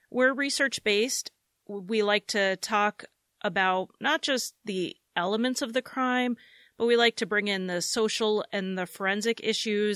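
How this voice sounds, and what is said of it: American accent. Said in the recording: “I'm in the U.S., as you could probably tell from my accent”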